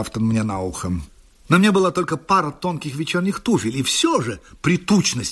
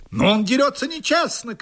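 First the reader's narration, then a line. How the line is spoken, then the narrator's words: Shouting. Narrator (Russian): крикнул мой противник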